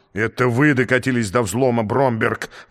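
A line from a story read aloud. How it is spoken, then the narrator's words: Roaring. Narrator (Russian): взревел экселленс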